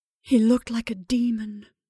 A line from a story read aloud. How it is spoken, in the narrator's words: she breathed in her ear